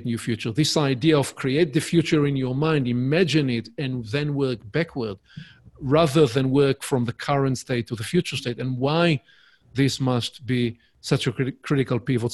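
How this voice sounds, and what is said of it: Hebrew-accented English. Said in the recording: “my Hebrewish accent, uh, my charming accent”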